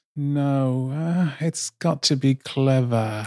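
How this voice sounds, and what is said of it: Nicole Kidman impression. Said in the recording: “Good Kidman impression too.”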